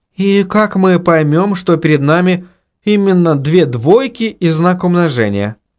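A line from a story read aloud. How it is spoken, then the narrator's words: Timid question. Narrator (Russian): робко спросила Инга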